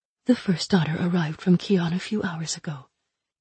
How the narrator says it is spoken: she whispered back

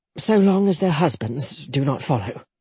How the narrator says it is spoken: Jetta murmured

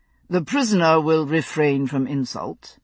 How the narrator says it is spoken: Justice Conant said coldly

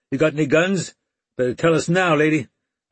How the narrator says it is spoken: one yelled

